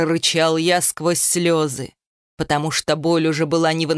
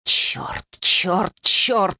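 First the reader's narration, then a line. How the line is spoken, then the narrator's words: Exhaled curse. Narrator (Russian): выдохнул я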